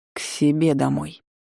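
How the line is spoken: Dry explanation. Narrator (Russian): сухо пояснил Дан

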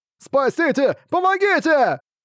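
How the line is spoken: Frantic screaming. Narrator (Russian): Истошно вопил Буксил

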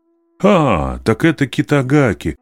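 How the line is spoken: Surprised exclamation. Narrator (Russian): воскликнул наставник, увидев исправленную карточку

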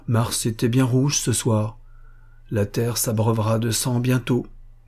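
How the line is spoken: Plain. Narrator (French): dit-il

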